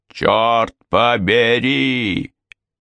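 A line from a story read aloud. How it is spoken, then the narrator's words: Yell. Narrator (Russian): заорал он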